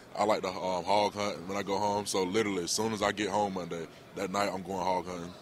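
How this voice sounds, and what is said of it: Country Southern accent, Georgia. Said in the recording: “I'm from a small town, Cochran, Georgia ... And I'm kind of country. I don't know if you can hear from my voice.”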